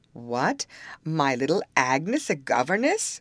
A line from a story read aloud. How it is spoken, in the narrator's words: cried he, and in spite of his dejection, he laughed at the idea